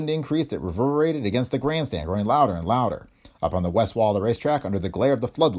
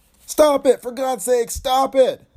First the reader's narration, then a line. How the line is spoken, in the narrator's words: yelled